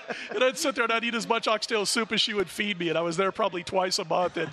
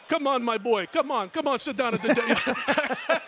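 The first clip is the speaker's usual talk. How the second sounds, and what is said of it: Attempted female Jamaican accent. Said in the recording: “I can't do the accent. I don't know what the hell I was coming up with there ... That was in a female Jamaican accent.”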